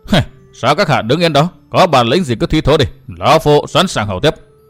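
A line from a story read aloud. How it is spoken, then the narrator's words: Sneering laugh. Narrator (Vietnamese): Thạch Nhất Phong cười khẩy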